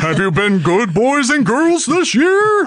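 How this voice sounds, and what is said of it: Santa Claus character voice. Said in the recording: “that's what Santa sounds like”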